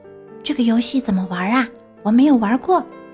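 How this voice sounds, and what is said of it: Quiet, soft questioning voice. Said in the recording (Chinese): “小熊 小声地问”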